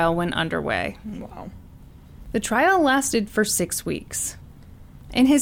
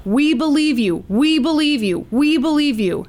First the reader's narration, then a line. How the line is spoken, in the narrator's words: a ton of people showed up outside the courthouse and shouted